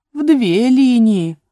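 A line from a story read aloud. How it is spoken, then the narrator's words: Exclamation. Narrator (Russian): воскликнул черепах телячьей ножки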